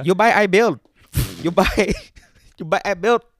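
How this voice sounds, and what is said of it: Put-on accent. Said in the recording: “He's not used to my accent yet.”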